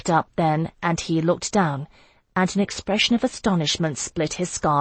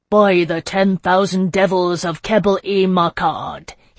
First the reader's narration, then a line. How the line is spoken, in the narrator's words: he thundered